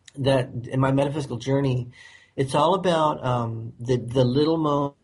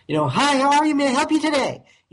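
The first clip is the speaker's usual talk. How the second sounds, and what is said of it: Fake cheery high-pitched service voice. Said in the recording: “acting like just a total corporate phony... Their voice actually goes up 3 octaves. It's absurd.”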